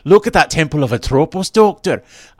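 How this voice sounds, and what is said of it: Terrible put-on Scottish accent. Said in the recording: “attempt a Scottish accent ... That is terrible. I tried to do a Scottish accent”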